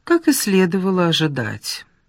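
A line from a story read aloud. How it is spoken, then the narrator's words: Tired. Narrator (Russian): сказала Ольга устало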